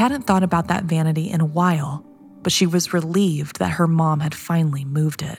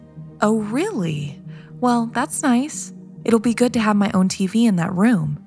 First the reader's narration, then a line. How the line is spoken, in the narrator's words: Kate said